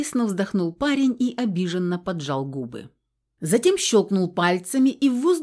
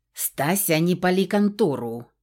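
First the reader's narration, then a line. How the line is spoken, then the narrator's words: Growling. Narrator (Russian): рыкнула на сестричку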